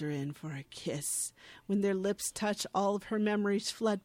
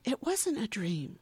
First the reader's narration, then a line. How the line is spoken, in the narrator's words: she says breathlessly